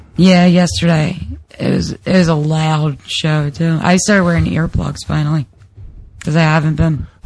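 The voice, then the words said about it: Raspy, strained voice. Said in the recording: “raspy voice, because you're constantly yelling... Your throat's probably inflamed”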